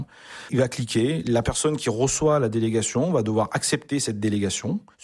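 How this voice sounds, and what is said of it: Southern French Avignon accent. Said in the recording (French): “est né en Avignon... on entend l'accent aussi depuis tout à l'heure”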